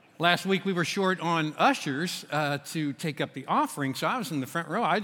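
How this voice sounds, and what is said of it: Kentucky accent. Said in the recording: “I have a different accent than Reese has. I am from Kentucky.”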